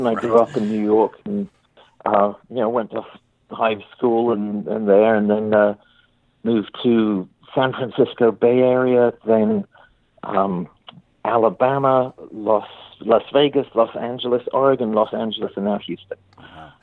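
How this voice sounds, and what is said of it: English accent. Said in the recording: “I was born in the south of England ... while I still have this accent”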